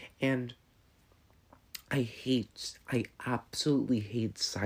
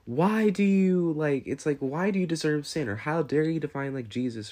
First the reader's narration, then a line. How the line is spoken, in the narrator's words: this agitating, grating voice yelling out